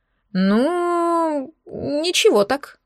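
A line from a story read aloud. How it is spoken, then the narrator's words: Drawl. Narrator (Russian): протянул Денис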